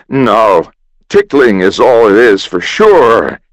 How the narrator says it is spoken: roared

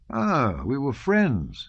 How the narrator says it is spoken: said Kutuzov cheerfully

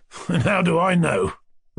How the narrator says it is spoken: Rogozhin laughed angrily

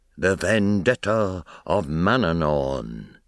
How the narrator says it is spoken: The seer murmuring

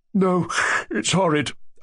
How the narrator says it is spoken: I yawned again

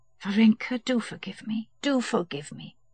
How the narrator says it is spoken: whispered Kitty

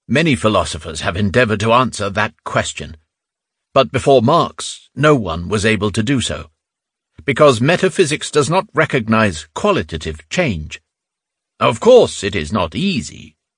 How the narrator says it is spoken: exclaimed indignantly

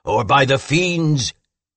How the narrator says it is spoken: shouted the monster

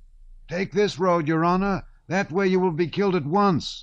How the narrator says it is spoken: a soldier shouted

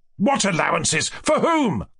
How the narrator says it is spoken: cried Ganya, firing up

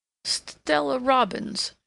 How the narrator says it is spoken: she faltered finally

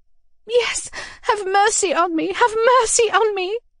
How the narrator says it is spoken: I cried

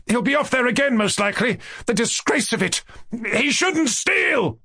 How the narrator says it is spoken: cried Ganya, almost spluttering with anger

